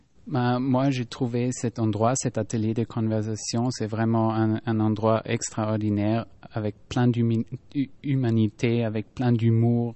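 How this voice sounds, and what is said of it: Austrian accent speaking French. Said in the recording (French): “pour ceux qui n'auraient pas reconnu votre accent? ... Moi, je viens d'Autriche.”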